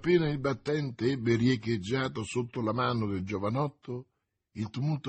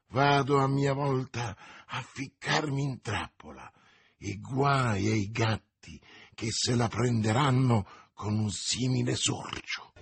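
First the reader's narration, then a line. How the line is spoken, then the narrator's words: Murmured. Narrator (Italian): mormorando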